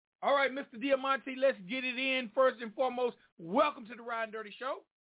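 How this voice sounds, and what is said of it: Southern American accent. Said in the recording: “I got that Southern dialect”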